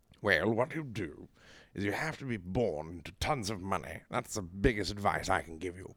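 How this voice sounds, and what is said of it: Put-on posh British accent. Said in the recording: “British accents ... posh British person ... Hit me with some advice as a British person.”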